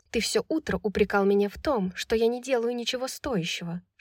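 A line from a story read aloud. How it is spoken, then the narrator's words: Whispered reply. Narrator (Russian): шепнула в ответ Брайс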